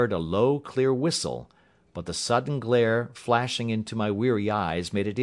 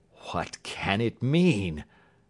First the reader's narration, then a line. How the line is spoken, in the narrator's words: I gasped